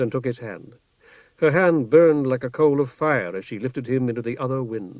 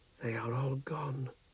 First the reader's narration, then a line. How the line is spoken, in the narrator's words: Sisera whispered